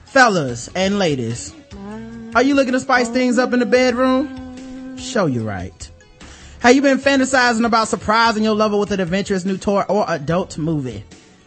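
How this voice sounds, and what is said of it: Sexy, smooth male voice. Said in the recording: “we got the right man with a sexy voice. I love your voice, sir.”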